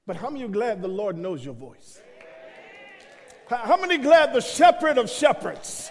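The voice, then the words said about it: Brooklyn New York accent. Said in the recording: “folk tell me, you got an accent. I'm saying, I'm from Brooklyn. What do you mean I got an accent?”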